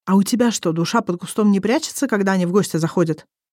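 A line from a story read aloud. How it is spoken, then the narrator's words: Somewhat raised voice. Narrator (Russian): Несколько повышенным тоном вопрошает Ирнчен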